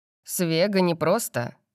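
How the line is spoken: Grumbling. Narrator (Russian): с ворчанием

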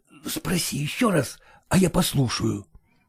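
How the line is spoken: Quiet command. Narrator (Russian): тихо приказал он Авдотье

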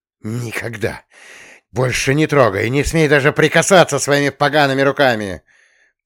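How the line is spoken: Hissed. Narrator (Russian): прошипела Романовская

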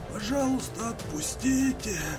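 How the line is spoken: Exhausted hiss. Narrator (Russian): Прошипел Андрей из последних сил

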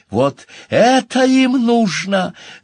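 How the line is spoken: Yelling back. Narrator (Russian): завопила в ответ

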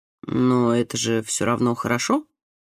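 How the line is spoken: Uncertain remark. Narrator (Russian): неуверенно заметил

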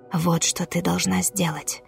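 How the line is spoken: Whisper. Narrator (Russian): шепнула темнота

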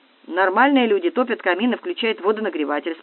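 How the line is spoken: Calm reply. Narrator (Russian): спокойно ответил Павел

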